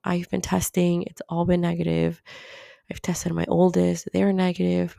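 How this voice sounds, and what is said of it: Hoarse, weakened voice. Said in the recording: “my voice is all weird now... it's not a sore throat anymore... I'm losing my voice”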